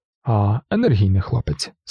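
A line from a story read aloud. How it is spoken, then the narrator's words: Cheerful. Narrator (Ukrainian): сказав містер Тейт, весело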